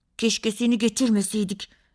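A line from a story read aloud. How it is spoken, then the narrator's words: Angry voice. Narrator (Turkish): dedi Barış kızgın bir sesle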